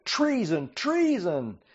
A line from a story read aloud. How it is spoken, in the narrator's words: Athaliah tore her clothes in distress and shouted